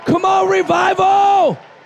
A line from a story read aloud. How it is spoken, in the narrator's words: Somebody shout